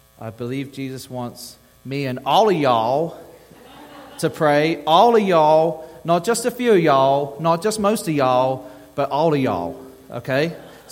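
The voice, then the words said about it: Englishman putting on Texan accent. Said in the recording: “in my best Texan accent ... an Englishman saying like some Texan”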